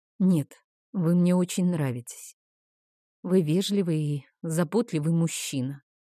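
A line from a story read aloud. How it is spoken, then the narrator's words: Lifeless, empty assurance. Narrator (Russian): заверила я его безжизненным пустым голосом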